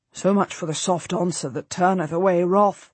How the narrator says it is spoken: Antony says quietly to me

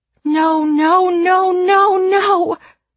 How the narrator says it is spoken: Grace cries

